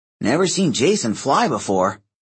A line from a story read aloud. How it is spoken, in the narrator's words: Percy grumbled